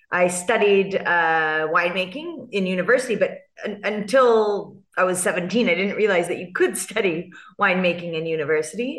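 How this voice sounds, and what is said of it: California American accent. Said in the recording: “I have this California accent”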